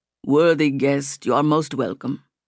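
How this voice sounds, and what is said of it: Heavy unfamiliar foreign accent. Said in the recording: “the man said in a heavy accent she'd never heard before”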